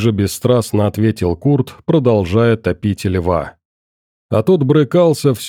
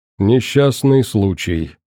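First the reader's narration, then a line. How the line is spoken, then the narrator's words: Indifferent comment. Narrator (Russian): безразличным голосом прокомментировал Курт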